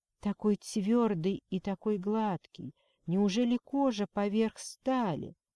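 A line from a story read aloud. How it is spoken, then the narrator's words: Satisfied purring. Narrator (Russian): мурлыкая от удовлетворения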